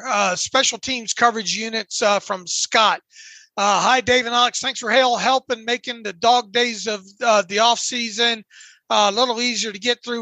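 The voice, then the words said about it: Dry, strained, fading voice. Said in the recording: “I'm starting to lose my voice here, real dry here”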